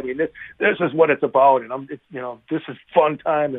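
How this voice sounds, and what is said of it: Excited, energetic voice. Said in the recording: “as you can probably tell from my voice, I'm pretty excited”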